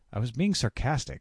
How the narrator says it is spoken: snapped

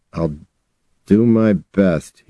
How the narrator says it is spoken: he said, his voice tight

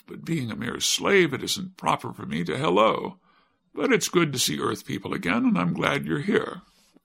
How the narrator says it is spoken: replied the boy with a laugh

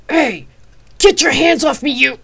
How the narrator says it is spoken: A loud, very male voice thundered back

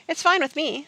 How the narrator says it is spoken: said Jack

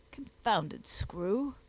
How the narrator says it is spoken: muttered Sponge

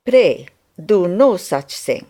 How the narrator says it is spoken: said she

